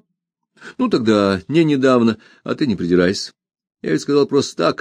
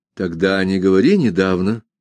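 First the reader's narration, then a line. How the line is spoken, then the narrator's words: Dry, wary correction. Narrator (Russian): сухо и настороженно поправил его Ганс Кастерп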